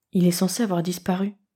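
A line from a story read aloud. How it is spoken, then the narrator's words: Breathless murmur. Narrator (French): murmura-t-il soufflé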